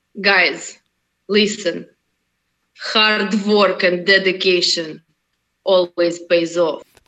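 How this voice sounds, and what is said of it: Strong Russian accent. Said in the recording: “Could you say that with your Russian accent? ... go for a strong Russian accent”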